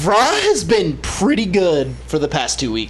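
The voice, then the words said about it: Weird southern accent. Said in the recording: “Why do you have a weird southern accent?”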